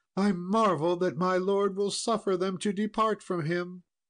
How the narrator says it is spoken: Queen Guinevere cried out

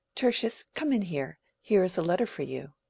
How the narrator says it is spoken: she said in her lightest tones

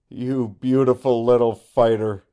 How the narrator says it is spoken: he cried exultantly

